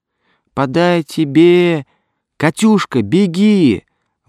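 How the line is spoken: Shrill squeal. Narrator (Russian): взвизгнул Мишка

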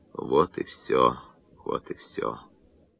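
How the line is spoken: Senseless muttering. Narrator (Russian): бессмысленно бормоча

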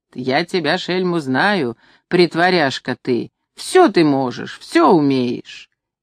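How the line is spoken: Old woman, laughing joyfully. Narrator (Russian): Старуха смеется радостно и говорит

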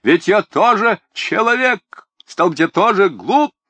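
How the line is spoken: Respectable gentleman shouting. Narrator (Russian): господин почтенной наружности и закричит

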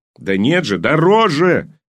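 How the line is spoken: Yelled. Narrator (Russian): завопил он

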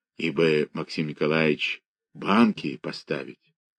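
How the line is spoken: Undertone. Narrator (Russian): сказал вполголоса

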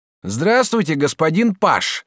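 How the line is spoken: Shouting from afar. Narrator (Russian): закричал Жак, едва завидев пажа издалека

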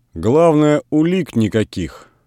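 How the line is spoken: Calm statement. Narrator (Russian): спокойно сказал исправник

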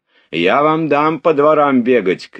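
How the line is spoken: Shout. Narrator (Russian): крикнул он

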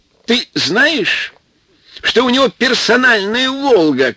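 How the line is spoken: Shouting. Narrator (Russian): кричал Рашпиль

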